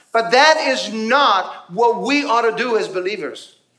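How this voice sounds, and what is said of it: Yelling, loud preaching voice. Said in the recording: “why am I yelling? ... I'm yelling today.”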